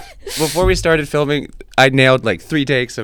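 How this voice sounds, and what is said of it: Usual voice. Nothing is said of it.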